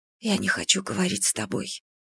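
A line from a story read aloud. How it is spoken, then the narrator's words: Whisper. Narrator (Russian): прошептала я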